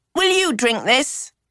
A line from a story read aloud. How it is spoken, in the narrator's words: shouted